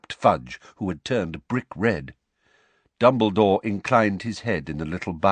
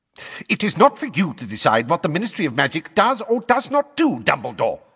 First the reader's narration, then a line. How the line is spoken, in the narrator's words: snapped Fudge, now a shade of magenta